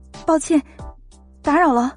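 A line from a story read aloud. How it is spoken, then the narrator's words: Flustered, hurried. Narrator (Chinese): 慌慌张张的说了一声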